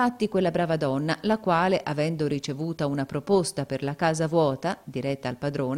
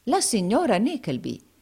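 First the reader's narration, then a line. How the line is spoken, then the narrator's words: Exclaimed. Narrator (Italian): esclamò il baronetto Malberry Hawk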